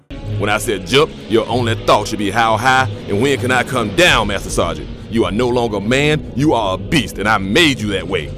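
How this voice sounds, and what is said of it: Shouting, raised drill-sergeant voice. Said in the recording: “raise my voice”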